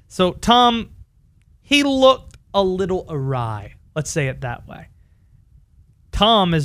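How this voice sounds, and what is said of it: Usual voice. Nothing is said of it.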